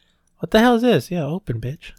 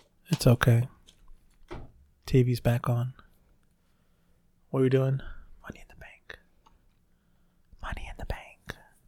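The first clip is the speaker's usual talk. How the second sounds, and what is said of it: Whispering. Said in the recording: “I don't know why I'm whispering.”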